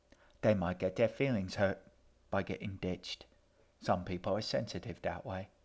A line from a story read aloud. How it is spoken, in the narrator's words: Edgar said cheerfully